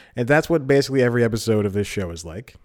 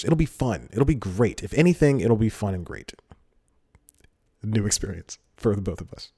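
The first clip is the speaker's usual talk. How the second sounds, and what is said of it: Choked-up voice, almost like laughing. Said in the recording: “getting choked up here. It may sound like I'm laughing, but I'm just getting choked up.”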